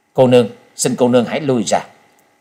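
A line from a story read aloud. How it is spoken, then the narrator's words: Cold request. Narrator (Vietnamese): Trần Lâm lạnh lùng hướng Hắc Y La Sát đệ nhị và nói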